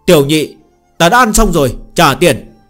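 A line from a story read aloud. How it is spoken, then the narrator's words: Loud call. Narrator (Vietnamese): Phương Hành lớn tiếng hô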